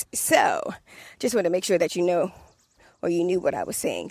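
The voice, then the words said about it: Washington D.C. accent. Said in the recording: “my D.C. accent”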